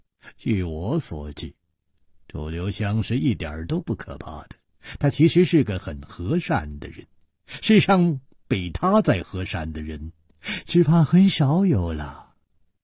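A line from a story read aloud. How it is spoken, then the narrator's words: Murmuring. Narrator (Chinese): 张小林喃喃地说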